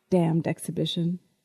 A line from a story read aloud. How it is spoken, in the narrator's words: John muttered